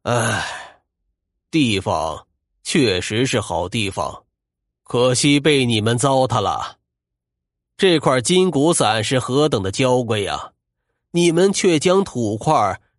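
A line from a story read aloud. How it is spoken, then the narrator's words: Sighing. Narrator (Chinese): 欧先生长叹了一声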